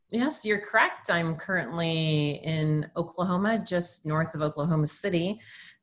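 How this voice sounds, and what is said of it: North American accent. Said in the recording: “I'm detecting by your accent that you're from, or you're based in the US of A”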